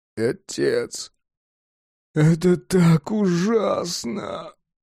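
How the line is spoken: Whimpering giant. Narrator (Russian): хныкал гигант

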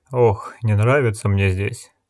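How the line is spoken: Sighing. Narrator (Russian): вздохнул Гис

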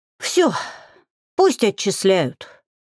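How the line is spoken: Breathless exhale. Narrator (Russian): выдохнула Алька

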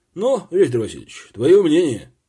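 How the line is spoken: Tired voice. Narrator (Russian): Обычно энергичный, порывистый старший лейтенант Ницак на этот раз ответил уставшим голосом

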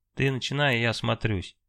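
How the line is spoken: Sighing. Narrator (Russian): вздохнул Алексей

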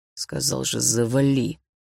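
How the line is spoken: Muttered through gritted teeth. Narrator (Russian): процедил сквозь зубы Лёха

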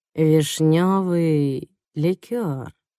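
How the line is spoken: Flat soulless voice. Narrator (Russian): повторяет Доди бездушным голосом

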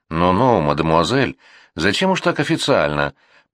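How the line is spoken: Cooing. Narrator (Russian): проворковал Лазарев

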